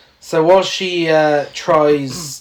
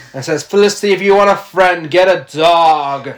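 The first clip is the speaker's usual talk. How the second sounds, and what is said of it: Good Christine Baranski impression. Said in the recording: “quite a good impression, actually. I thought Christine Baranski was in the room... that's exactly what she sounded like”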